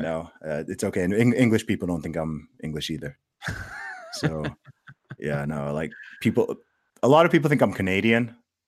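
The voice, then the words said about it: Mixed American and slight British accent. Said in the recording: “my accent is somewhere between American and with a touch of British ... a lot of people guess Canadian ... most people just think I'm American”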